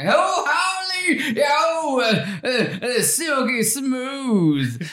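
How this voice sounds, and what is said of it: Yosemite Sam cartoon voice. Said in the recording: “Try to do it like Yosemite Sam.”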